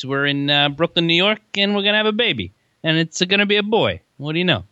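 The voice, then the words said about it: Put-on Italian accent. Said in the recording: “speak in an Italian accent like that”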